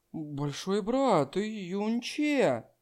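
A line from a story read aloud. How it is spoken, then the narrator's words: Soft whisper. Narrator (Russian): Линер … тихо прошептав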